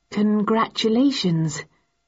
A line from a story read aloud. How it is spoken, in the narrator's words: said, slightly uneasily